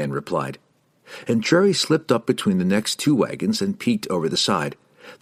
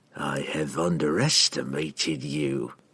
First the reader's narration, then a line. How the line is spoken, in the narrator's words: Entreri whispered to himself